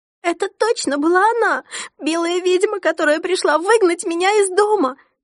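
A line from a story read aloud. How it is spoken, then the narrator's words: Sobbing, insistent repetition. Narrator (Russian): Всхлипывая, продолжала твердить Мари-Энн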